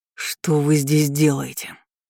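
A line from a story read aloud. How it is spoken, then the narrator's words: Helpless growl. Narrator (Russian): рыкнул Ричард, но в голосе звучало скорее его бессилие, чем злость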